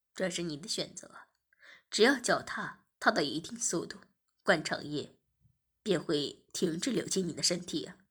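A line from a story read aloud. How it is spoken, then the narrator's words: Laughing. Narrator (Chinese): 我笑着说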